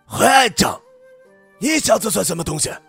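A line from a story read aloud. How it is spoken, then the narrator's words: Young man yelling. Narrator (Chinese): 青年人叫吼着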